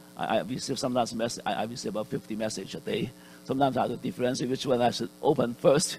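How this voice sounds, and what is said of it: Usual voice. Nothing is said of it.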